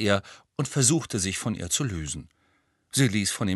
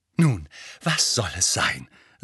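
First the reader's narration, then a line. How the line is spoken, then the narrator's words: Breathless. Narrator (German): sagte atemlos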